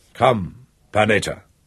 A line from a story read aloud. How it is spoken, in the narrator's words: Emmanuel said roughly